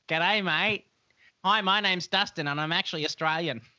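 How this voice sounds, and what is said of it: Put-on Australian accent. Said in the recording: “I can do a really good Australian accent ... That's really close. It's really close. ... It's so accurate.”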